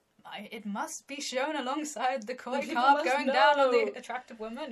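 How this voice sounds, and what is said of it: Charles Darwin impression. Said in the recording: “my Charles Darwin impression. ... It was really good.”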